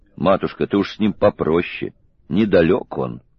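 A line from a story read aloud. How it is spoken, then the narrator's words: Warning whisper in ear. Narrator (Russian): Воронцов предупредительно шепнул на ушко императрицы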